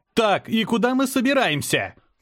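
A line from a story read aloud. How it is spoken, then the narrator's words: Shouting over noise. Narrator (Russian): крикнул я, стараясь заглушить грохот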